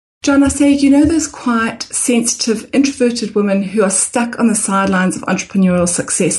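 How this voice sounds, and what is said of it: Mixed international accent. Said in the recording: “the exact origins of your accent ... the Zimbabwe to England to Australia. You got a little good mix in there ... Very international accent.”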